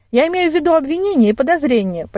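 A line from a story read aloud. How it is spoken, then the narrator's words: Nearly shouted. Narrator (Russian): почти выкрикнула я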